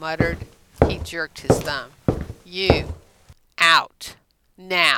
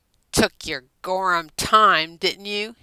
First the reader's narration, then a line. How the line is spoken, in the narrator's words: He snarled at her